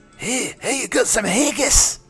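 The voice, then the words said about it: Put-on Glaswegian Scottish accent. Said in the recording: “speaking in a Glaswegian accent”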